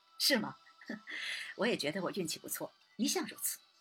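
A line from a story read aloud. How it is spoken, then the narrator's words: Laughing. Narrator (Chinese): 三郎笑道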